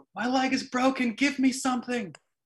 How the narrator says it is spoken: he yelled

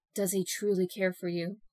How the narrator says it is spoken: He said in a hushed tone only loud enough for her to hear

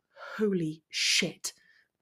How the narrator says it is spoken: mumbled Draco

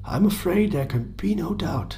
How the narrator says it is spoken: the coroner confirmed in his heavy, tired voice

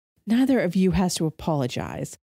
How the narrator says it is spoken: Shioni sighed

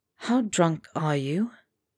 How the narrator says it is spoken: Potter said softly

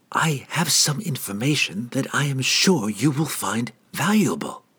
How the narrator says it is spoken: the halfling said quietly

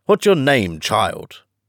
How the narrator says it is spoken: said the Queen, impatiently

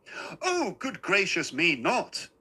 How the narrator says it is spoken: he cried

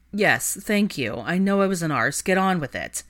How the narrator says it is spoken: grumbled petulantly

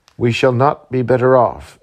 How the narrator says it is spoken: answered he

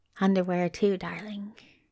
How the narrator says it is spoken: said quietly

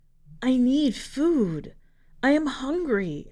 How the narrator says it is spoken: croaked

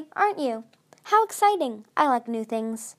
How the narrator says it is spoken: said cheerfully

